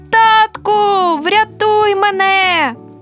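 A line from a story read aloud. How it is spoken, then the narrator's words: Shrieking. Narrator (Ukrainian): Він підсилив мій страх, і я не закричала, а заверещала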